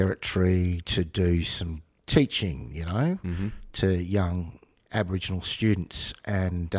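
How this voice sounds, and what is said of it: Usual voice. Nothing is said of it.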